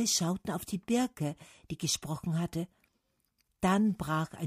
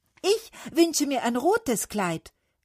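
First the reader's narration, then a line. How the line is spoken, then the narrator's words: Cherry tree calling. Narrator (German): rief der Kirschbaum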